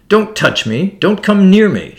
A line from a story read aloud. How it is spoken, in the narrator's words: screamed furiously